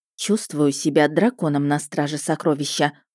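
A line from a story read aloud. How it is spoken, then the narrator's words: Grumbling. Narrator (Russian): буркнула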